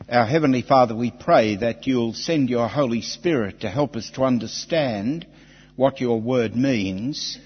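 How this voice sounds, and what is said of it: Australian-style accent, I sounds like A. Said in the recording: “I'm sorry about the accent. Everybody in our country does it, even little children, without trying. ... all the I sounds are really A's. ... We say g'day.”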